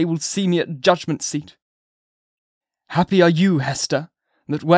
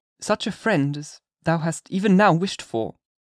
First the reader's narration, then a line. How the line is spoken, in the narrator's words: said she